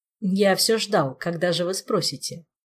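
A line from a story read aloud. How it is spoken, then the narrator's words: Mocking reply. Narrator (Russian): Насмешливо отозвался советник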